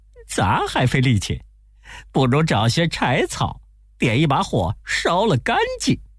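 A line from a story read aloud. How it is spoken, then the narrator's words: Laughing. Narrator (Chinese): 悟空笑着说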